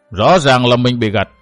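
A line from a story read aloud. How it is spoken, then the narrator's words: Cold. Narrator (Vietnamese): Trầm Tổng Tiêu Đầu lạnh lùng nói tiếp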